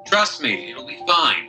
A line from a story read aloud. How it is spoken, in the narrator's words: yelling